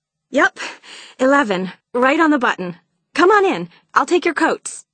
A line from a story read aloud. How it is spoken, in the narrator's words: Charlotte said excitedly